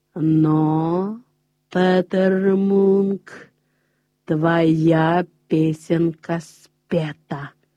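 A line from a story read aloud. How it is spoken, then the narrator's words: Familiar hoarse voice. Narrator (Russian): сказал знакомый хриплый голос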